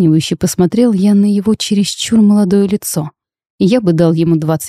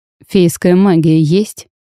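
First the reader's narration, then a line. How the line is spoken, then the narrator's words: Stern question. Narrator (Russian): строго уточнил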